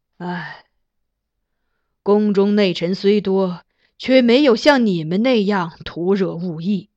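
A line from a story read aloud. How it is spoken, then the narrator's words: Solemn sigh. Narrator (Chinese): 金上郑重一叹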